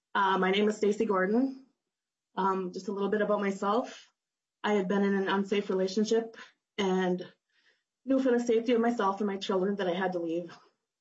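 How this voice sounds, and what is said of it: Voice affected by illness. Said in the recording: “I am a little bit under the weather, so please forgive my voice.”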